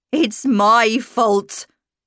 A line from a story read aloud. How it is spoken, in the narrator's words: she cried